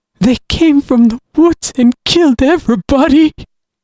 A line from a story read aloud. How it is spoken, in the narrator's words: he sobbed